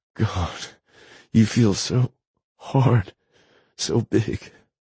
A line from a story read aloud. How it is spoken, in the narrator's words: she moans